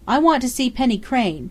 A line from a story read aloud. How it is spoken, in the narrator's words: Dundee cried